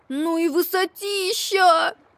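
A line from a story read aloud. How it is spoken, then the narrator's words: Squeaky voice. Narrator (Russian): пропищал Макси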